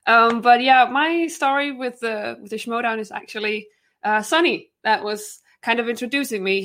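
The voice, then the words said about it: Danish accent in English. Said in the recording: “if I have a funny accent, it's because I'm a Dane”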